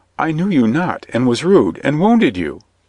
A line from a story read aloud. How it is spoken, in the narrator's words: exclaimed